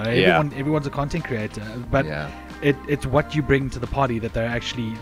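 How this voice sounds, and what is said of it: South African accent. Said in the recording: “with most South Africans that come here and do streaming, it's because of our accent as well ... They really enjoy the accent of a South African.”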